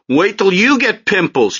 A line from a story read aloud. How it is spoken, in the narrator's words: Chapter 11 shouted, ashamed and furious from the hallway